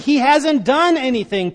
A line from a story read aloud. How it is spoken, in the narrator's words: Pilate said